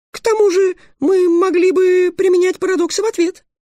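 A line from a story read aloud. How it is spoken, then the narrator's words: Loud squeak. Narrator (Russian): громко пискнула Аннет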